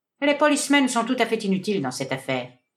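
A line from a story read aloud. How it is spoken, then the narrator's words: Cold declaration. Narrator (French): déclara froidement le détective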